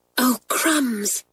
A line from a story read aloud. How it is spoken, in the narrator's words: groaned Kathleen